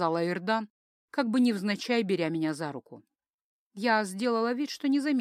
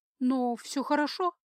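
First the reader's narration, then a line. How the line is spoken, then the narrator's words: Uncertain question. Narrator (Russian): спросила я неуверенно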